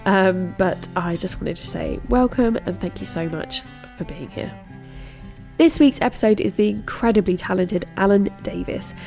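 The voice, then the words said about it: Congested voice with a cold. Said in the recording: “As you can hear, I've got a bit of a cold.”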